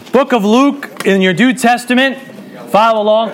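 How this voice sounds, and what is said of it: Loud projecting teacher voice. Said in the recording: “I got to put my big teacher voice on”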